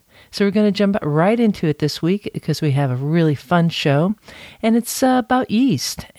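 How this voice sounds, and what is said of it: Voice still recovering from illness. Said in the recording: “You might hear that in my voice ... It takes a while to recover”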